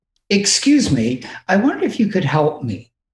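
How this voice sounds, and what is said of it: Put-on polite English accent. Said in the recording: “with my best English accent”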